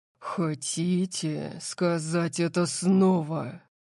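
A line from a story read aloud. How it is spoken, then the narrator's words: Low-voiced question. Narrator (Russian): спросил Дариус низким голосом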